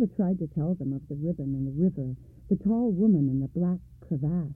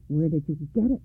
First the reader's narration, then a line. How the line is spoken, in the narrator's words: she asked Silver